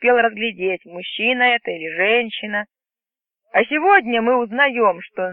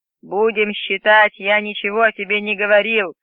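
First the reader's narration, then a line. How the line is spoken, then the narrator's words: Growling. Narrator (Russian): прорычал он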